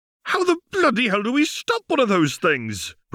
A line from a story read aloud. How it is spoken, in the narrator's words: Ron exclaimed, his voice cracking hysterically